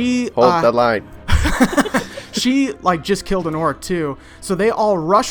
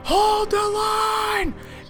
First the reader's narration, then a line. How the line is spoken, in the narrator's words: shout go up from Analda saying